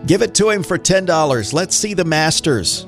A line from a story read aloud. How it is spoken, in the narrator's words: someone shouted